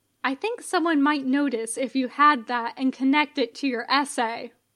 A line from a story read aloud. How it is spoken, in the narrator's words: Lafayette says